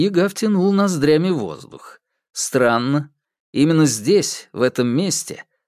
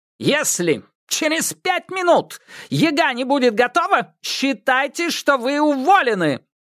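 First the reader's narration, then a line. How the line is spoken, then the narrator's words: Insolent devil's shout. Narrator (Russian): прокричал ей наглый черт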